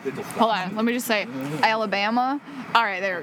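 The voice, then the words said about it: Deliberately bad Southern accent. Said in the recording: “a really terrible Southern accent”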